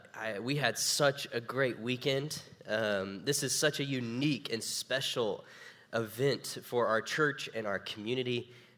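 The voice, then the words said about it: Tired-sounding voice. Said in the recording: “if I sound tired, it's because I am.”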